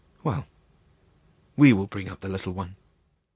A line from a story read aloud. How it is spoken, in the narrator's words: Berta murmured